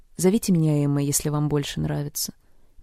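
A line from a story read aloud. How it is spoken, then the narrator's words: Gracious, laughing. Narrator (Russian): милостиво разрешила она сквозь смех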